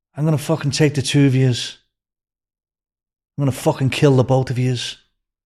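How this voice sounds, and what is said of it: Irish accent. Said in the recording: “you an Irish gangster? With the accent.”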